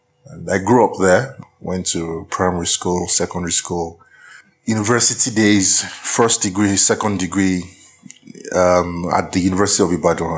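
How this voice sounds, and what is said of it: Nigerian English accent. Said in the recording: “My accent is distinctly Nigerian, I'm sure.”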